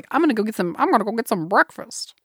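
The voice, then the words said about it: Northeastern-sounding character voice. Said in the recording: “This Belina impression is my best impression of all time ... totally a Northeastern accent, not a Kansas accent ... It sounds like one of the Hepburns for sure”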